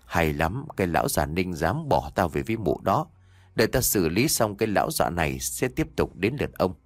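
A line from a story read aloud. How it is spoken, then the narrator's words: Sly, smiling. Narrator (Vietnamese): Khẽ nở một nụ cười gian xảo, mụ Hạnh nói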